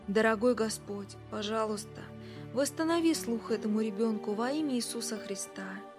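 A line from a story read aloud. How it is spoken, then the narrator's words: Quiet prayer. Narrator (Russian): Билл … начал тихо молиться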